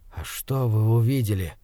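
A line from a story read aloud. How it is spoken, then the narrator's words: Barely audible breath. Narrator (Russian): еле слышно выдохнул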